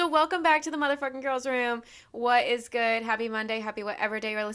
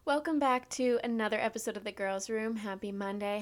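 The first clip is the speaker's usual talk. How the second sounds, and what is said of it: Fake customer-service phone voice. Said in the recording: “notice how fast my voice switched up ... my retail voice ... my fake phone voice”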